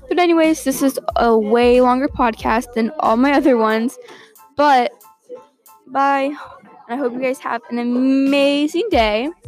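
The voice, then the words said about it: Rough, strained voice. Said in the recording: “my voice sounds like that. My throat hurts.”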